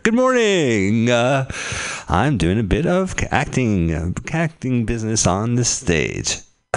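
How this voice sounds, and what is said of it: Sung theatrical character voice. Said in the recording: “I'm acting, and I'm singing. I am acting in a singing voice. I'm in character.”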